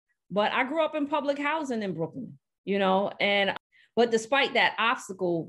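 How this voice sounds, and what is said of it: Brooklyn New York accent. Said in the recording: “you hear the accent. I can't hide it.”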